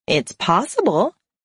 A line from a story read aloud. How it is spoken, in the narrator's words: Lucy said, and then she chuckled